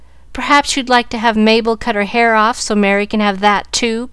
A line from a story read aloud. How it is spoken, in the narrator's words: cried Susie, with whom hair was a tender point